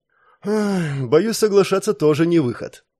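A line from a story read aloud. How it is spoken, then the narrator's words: Young woman's heavy sigh. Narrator (Russian): тяжело вздохнула девушка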